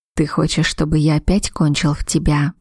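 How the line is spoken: Whisper. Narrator (Russian): прошептал он

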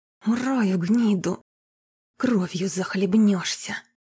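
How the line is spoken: Hissing in pain and fury. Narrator (Russian): С вытаращенными от боли и ярости глазами прошипел он Корсакову

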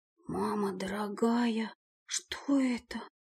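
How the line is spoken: Whispered. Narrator (Russian): прошептала

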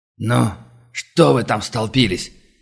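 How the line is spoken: Impatient bark. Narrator (Russian): Не выдержав воцарившейся гнетущей тишины, рявкнул Шепетов

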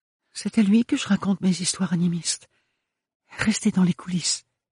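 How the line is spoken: Whisper. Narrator (French): chuchota Ophélie

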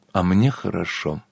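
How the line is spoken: Quiet. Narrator (Russian): тихо повторила Анна

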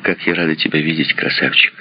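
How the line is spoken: Plain. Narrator (Russian): сказала она

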